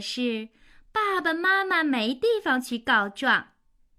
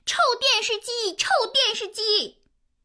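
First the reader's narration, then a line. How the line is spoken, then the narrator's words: Loud angry yelling. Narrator (Chinese): 脾气大王叫的那么响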